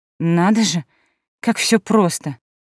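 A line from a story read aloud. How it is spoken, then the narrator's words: Indignant, through gritted teeth. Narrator (Russian): процедила я сквозь зубы, не в силах справиться с кипящим внутри возмущением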